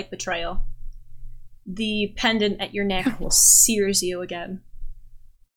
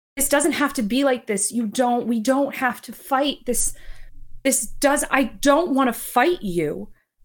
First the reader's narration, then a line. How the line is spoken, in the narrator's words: she yells